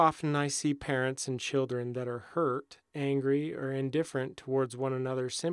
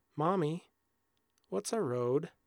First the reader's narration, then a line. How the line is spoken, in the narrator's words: the frightened little girl spoke timidly